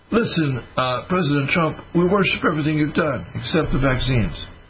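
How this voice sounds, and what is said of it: Put-on Italian accent. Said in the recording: “I'm going to go use my Italian accent.”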